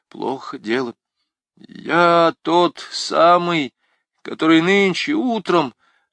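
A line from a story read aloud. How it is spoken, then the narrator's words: Stammering. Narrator (Russian): запинаясь, начал он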